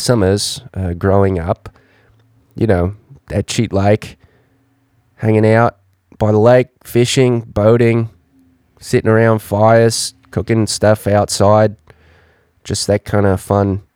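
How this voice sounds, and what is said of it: Put-on Australian accent. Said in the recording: “talking in the Australian accent”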